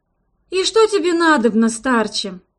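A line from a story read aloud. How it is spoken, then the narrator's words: Sigh. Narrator (Russian): вздохнула я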